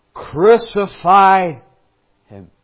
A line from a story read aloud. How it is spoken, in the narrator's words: they cried out the more exceedingly